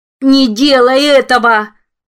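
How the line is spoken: Howling plea. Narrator (Russian): взвыл голос миссис послушной разумной

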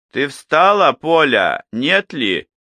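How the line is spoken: Deliberately loud. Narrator (Russian): нарочно громко сказала домнушка

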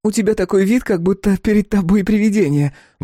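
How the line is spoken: Exclamation. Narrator (Russian): воскликнула Лависа

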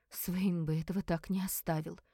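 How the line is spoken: Whisper. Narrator (Russian): прошептала она

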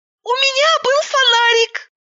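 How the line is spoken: Squeaky voice. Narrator (Russian): Пропищала

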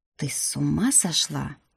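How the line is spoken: Quiet indignation. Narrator (Russian): Тихо возмутился принц

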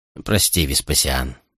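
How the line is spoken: Quiet. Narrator (Russian): тихо произнес генерал

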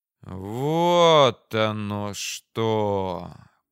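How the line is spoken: Drawn-out realization. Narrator (Russian): протянул я

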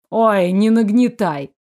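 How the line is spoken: Snorting. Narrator (Russian): фыркнул Дэниэль

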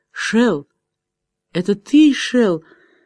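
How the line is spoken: Quiet uncertain voice. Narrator (Russian): неуверенным голосом тихо произнесла

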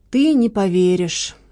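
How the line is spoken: Sighing. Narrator (Russian): вздохнул Маркиз

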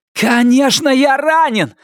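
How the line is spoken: Yell. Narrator (Russian): заорал Норрис

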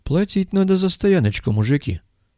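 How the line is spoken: Calm but loud. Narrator (Russian): Спокойно, но достаточно громко сообщил долговязый

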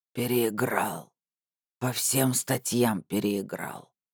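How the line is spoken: Quiet hoarse wheeze. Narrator (Russian): тихо прохрипел он

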